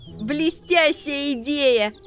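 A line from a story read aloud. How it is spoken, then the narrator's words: Laughing. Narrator (Russian): рассмеялся Макси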